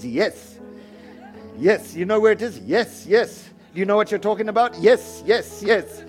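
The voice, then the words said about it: Put-on Indian accent. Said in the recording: “That's why I talk in an Indian accent, you know. Like here, I'm doing it for fun”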